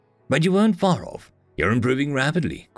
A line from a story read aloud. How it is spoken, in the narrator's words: Qui said